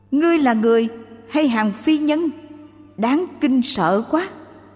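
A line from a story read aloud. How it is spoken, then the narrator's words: Panicked shout. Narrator (Vietnamese): Ông hoảng hốt la lên rằng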